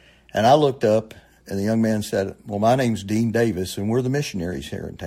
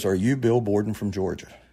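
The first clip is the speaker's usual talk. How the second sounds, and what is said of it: Strong South Georgia accent. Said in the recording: “in the strongest South Georgia accent”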